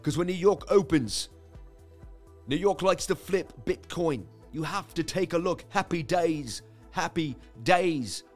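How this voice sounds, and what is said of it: Imitated accent, poorly done. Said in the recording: “terrible, that accent.”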